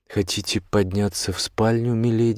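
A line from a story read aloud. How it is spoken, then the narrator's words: Plain. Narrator (Russian): спросила девушка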